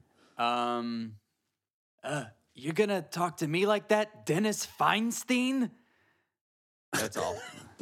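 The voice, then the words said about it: Imitates another person's voice. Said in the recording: “What's your best Jason Mantzoukas impression? ... That's pretty good.”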